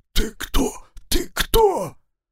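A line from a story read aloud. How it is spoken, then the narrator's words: Hoarse wheeze. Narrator (Russian): Я только и смог просипеть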